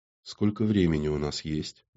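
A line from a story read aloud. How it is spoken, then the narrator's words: Unpleasantly calm question. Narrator (Russian): неприятно спокойным тоном осведомилась Юлия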